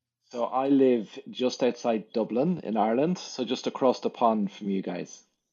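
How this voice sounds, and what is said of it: Speaks with a distinct accent. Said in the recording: “your accent”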